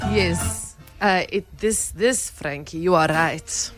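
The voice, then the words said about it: Put-on Russian accent. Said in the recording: “your Russian accent? Bring it back ... He just wants the accent.”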